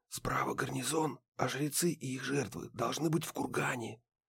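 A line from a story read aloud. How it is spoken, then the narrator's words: Male whisper. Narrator (Russian): прошептал Гедеон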